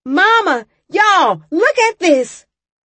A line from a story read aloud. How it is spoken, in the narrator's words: I yelled